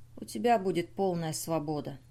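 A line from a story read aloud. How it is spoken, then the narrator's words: Quiet. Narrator (Russian): тихо произнес Лои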